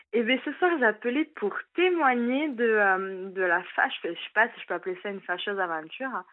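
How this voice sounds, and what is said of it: Slight southwestern French accent. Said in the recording (French): “un petit accent aussi... du sud-ouest... Un petit accent du sud-ouest”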